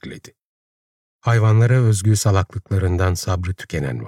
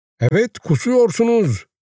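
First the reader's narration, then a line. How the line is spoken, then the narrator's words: Crying out. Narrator (Turkish): diye haykırdı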